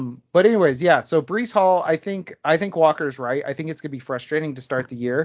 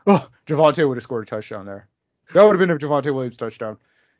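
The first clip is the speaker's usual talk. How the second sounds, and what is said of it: Mock impression of online fans. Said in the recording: “this is my impression of Twitter every time Melvin Gordon gets the ball”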